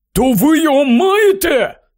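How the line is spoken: Exclaiming. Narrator (Ukrainian): вигукнув Рон

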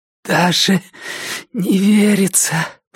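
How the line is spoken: Hoarse rasp. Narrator (Russian): прохрипела она

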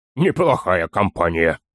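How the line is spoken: Chuckling. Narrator (Russian): хохотнул Торин

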